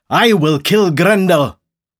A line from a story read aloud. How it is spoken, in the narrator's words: suddenly, a man called Beowulf shouted